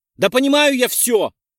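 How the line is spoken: Nearly shouting. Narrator (Russian): почти прокричал Перк

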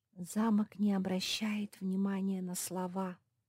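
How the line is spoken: Whisper. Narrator (Russian): прошептала Лизи

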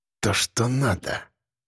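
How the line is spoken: Mumbled. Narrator (Russian): пробормотал Леха

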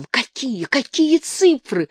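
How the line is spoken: Breathless excited wheeze. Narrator (Russian): задохнувшись от волнения, просипел потлатый

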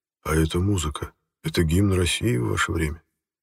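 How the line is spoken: Quiet question. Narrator (Russian): тихонько спросил меня наместник Алексеев

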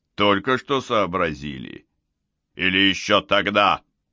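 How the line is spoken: Barked. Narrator (Russian): рявкнул коротышка-полицейский

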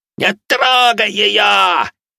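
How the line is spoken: Yelling. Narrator (Russian): орал он

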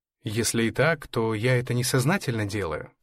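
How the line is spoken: Plain. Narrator (Russian): сказал Эрнест

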